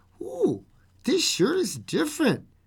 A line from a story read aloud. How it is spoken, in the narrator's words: Trent exclaimed